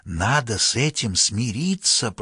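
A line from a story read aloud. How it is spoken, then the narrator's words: Whisper. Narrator (Russian): прошептал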